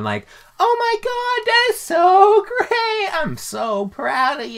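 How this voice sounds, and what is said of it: Sarcastic, mock-enthusiastic tone. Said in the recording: “being sarcastic”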